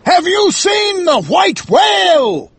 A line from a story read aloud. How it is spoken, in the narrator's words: He shouted